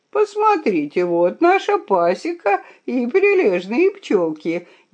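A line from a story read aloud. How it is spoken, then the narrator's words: Snide laughing. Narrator (Russian): ехидно посмеялся он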